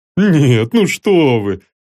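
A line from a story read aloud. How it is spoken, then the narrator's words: Laughing. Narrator (Russian): рассмеялся Померанцев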